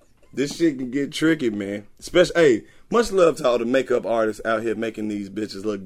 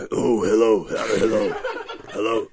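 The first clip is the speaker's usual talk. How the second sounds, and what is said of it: Exaggerated deep morning voice. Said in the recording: “You wake up with the deep voice.”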